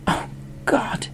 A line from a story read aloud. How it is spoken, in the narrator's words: he gasped